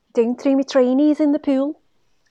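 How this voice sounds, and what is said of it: Put-on Scouse accent. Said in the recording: “the best way to perfect a Scouse accent is to say the words, don't throw the trainers in the pool, like this”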